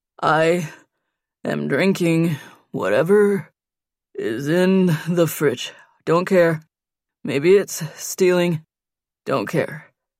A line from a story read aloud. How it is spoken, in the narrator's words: Nate said between breaths